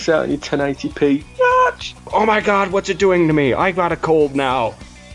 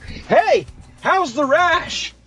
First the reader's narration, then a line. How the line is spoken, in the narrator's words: the smithy could be a guy who stands all the way across the room and shouts at you